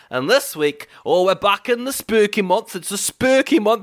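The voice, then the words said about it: Exaggerated put-on accent. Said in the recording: “that accent is terrifying. It's very spooky ... you're doing quite enough of one”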